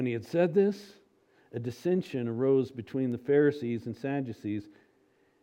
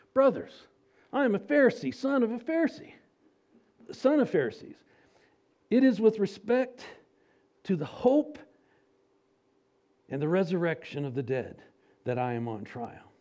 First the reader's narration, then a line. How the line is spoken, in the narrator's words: Paul cried out in the council